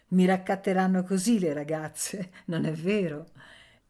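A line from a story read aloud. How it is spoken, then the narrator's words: Laughing, very happy. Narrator (Italian): Ananya rise e disse tutto felice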